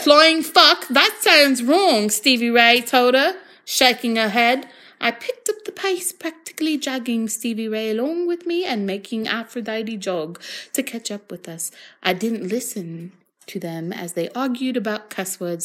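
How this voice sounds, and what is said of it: Put-on Australian accent. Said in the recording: “Oh, I guess I'm going with Australia.”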